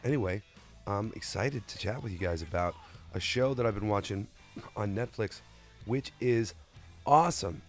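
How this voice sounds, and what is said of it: Sick, under-the-weather voice. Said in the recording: “I'm still a little under the weather, as you probably hear in my voice.”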